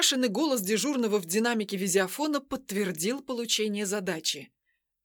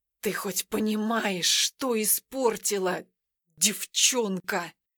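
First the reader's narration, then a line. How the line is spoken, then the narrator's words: Manic hoarse rasp. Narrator (Russian): прохрипел он с откровенным безумием в глазах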